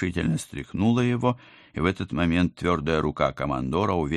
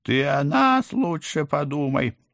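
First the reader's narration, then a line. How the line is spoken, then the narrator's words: Choking, yelling. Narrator (Russian): захлебываясь, орал кот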